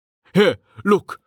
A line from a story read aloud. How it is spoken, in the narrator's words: Jameis said urgently